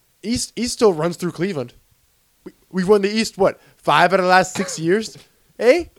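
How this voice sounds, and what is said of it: Put-on Canadian accent. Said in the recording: “the Canadian accent. That's my Canadian accent.”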